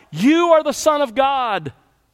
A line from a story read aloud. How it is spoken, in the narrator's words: The demon would take complete control of the person and, as is true here, used the person's body and voice, and they would shout out